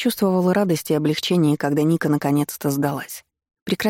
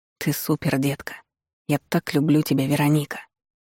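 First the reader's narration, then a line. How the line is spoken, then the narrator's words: Passionate incantatory whisper. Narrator (Russian): прошептали горячие губы, как заклинание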